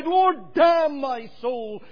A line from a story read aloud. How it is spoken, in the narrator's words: he would have cried